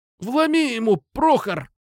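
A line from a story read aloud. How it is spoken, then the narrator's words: Pained groan. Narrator (Russian): простонал тот, которому прилетело по ногам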